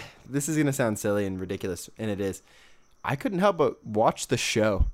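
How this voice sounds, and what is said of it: Usual voice. Nothing is said of it.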